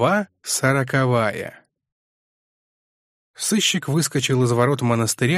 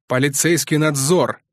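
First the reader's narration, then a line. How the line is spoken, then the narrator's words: Barked. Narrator (Russian): рявкнул Мармеладов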